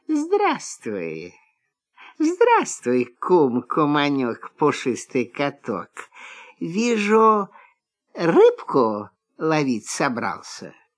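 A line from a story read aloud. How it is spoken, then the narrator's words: Sweet honeyed voice. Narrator (Russian): лиса говорит медовым голоском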